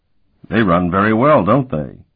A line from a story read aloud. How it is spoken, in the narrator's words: Euloth chuckled